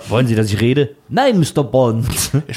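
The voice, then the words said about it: Put-on Saxon German accent. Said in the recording (German): “Das ist auch jetzt nochmal auf Sächsisch.”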